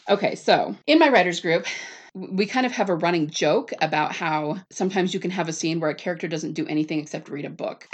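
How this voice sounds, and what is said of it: Strained, fading voice. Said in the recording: “I keep losing my voice ... I think it is affecting my voice”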